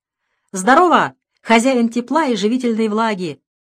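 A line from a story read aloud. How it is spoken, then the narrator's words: Shouting. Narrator (Russian): прокричал он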